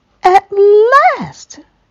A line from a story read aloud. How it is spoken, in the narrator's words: shouted Toad